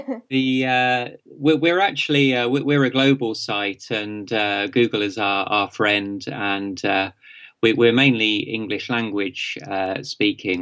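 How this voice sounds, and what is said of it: British English accent. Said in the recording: “I know that you're based in the UK ... you guessed from the accent”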